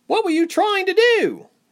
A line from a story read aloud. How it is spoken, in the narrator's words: Reshma cried